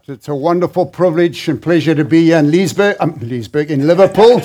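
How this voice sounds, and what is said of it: South African accent. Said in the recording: “I actually grew up in South Africa, so I don't talk like an American.”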